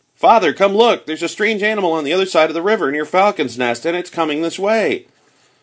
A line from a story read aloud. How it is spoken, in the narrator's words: Fritz suddenly cried out